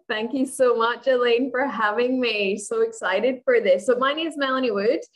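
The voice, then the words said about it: Scottish accent with Australian touches. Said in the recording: “she has an accent ... I'm originally from Scotland, but I live in Australia ... that's why there's a, a, little bit of accents going on there”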